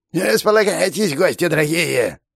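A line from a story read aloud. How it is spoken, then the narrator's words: Shouted. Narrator (Russian): крикнул нам ногогрыз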